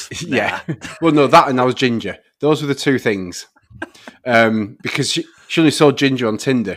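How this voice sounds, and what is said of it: Northern English accent. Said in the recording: “my accent. She thought it was really cute ... my northern accent”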